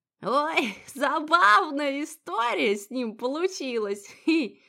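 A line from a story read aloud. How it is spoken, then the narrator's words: Flirtatious chuckle. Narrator (Russian): Хохотнула Софья Ильинична, кокетливо поправив волосы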